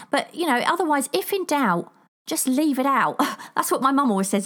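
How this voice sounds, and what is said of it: British accent between posh and Cockney. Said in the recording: “a funny accent ... Should be like Cockney or something ... a cross between the Queen's English and Cockney”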